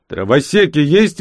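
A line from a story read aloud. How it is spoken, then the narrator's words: Loud bark. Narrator (Russian): гаркнул я в толпу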